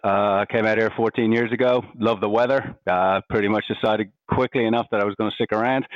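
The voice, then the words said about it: Irish accent. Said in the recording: “I'm Irish, you can probably hear from my accent.”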